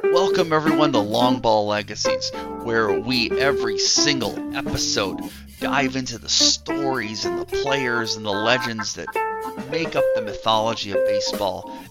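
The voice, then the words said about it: Nasal, froggy voice from cold. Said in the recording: “I have a bit of a cold this morning, so if I sound a little nasally or a little froggy, at least more so than usual”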